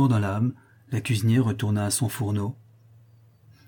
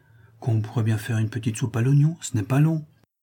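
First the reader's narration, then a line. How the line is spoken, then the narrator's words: Timid remark. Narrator (French): fit timidement observer Sébastien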